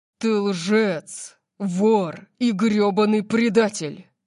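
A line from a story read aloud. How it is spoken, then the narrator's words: Growl. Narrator (Russian): прорычал он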